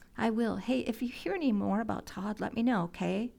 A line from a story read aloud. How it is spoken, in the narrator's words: asked Harriet